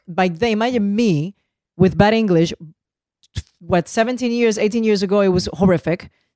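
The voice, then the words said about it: Noticeable foreign accent in English. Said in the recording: “they give me shit about the accent”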